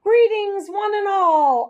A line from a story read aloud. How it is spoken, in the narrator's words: I squeaked as loudly as I could